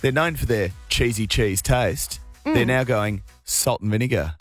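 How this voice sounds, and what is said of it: Mock newsreader voice. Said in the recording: “do it in your best news voice.”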